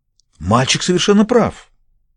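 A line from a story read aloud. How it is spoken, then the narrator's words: Exclaimed. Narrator (Russian): воскликнул Роджер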